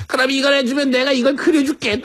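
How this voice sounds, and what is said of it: Imitates their young daughter's voice. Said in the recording (Korean): “본인의 자녀의 성대모사를 그렇게 하면 어떡합니까?”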